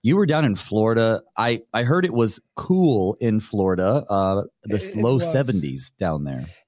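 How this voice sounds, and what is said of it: Voice affected by illness. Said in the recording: “You'll have to excuse my voice. I'm still coming off the flu, recovering a little bit”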